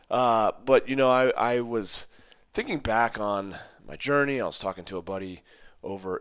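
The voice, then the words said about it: Raspy, recovering hoarse voice. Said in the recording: “My voice may sound a little bit different because it's coming back. I lost it. ... apologies for the raspy voice.”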